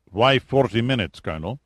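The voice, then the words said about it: Put-on Slavic accent. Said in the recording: “spoke up with a Slavic accent”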